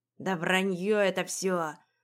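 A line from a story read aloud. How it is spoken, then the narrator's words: Grumbling voices. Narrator (Russian): ворчали третьи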